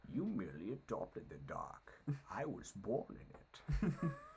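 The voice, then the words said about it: Bane character voice. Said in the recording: “a little Bane impersonation for you from the Dark Knight Rises ... Good Bane”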